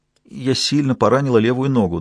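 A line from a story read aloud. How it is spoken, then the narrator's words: Trembling, holding back tears. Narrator (Russian): дрожащим голосом, сдерживая слезы, сказала она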